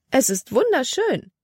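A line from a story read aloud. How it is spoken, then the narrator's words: Exclaiming. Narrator (German): rief sie aus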